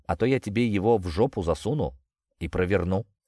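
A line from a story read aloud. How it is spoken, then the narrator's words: Calm. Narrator (Russian): спокойно проговорил я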